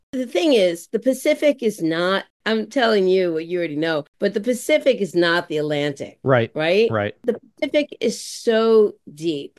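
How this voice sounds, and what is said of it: New York accent. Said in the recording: “I said that with my New York accent”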